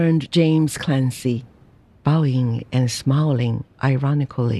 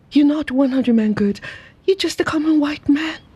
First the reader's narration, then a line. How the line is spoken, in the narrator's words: With swift anger, she cried